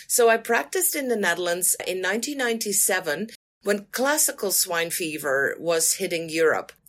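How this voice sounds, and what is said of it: Dutch accent. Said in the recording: “probably my accent gives it away from the Netherlands”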